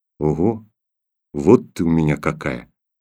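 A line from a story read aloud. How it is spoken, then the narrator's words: Quiet, father. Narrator (Russian): тихо промолвил отец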